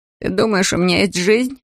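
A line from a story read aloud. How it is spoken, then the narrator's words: Laughing. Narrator (Russian): Он рассмеялся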